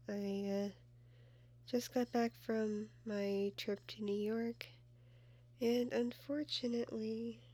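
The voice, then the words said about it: Rough, sick-sounding voice. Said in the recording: “my voice sounds pretty jacked ... I got a little sick”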